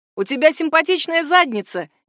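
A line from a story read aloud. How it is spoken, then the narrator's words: Shout. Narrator (Russian): крикнул один из них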